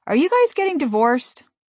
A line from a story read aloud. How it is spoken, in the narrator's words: Finally, our youngest blurted out